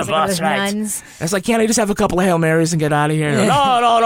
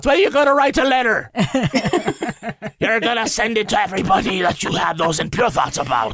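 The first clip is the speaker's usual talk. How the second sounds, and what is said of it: Fake Irish accent, priest voice. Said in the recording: “You sound like what's his face from SVU ... you sound like Rollins' baby daddy Declan just now in his fake Irish accent ... It's how Father Flanagan would talk”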